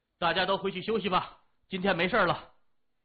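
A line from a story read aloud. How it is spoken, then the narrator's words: Loud. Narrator (Chinese): 谢文东 大声说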